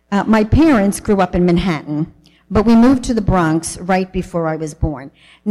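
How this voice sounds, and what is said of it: New York accent. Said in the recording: “Excuse my New York accent. Some of you love it, some of you not so much”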